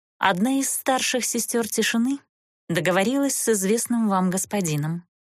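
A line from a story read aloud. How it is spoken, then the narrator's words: Even voice hiding sadness. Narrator (Russian): ровным голосом произнесла монашка, хотя на душе у нее было тоскливо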